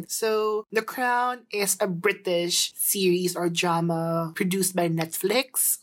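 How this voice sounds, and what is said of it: Fake British accent. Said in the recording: “Wow, may accent ... Wow, tama yung accent ng peke”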